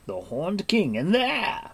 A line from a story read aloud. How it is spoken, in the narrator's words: he exclaimed